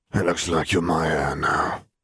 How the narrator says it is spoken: grunted

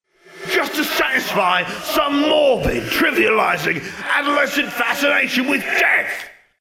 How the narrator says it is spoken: He bellowed

